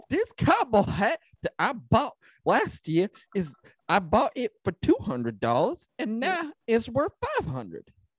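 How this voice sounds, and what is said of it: Exaggerated Southern accent impression. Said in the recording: “that was my impression of a mentally challenged Southern person”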